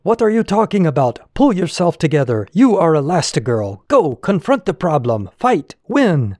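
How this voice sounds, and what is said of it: Edna from The Incredibles accent. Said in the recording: “Edna from The Incredibles saying in her terrific accent”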